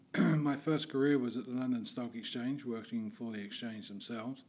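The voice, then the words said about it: London English accent. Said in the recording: “I'm from London, England, as you may be able to tell from my accent.”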